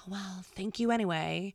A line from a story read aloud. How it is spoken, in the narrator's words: my mom would give a righteous, long-suffering sigh and say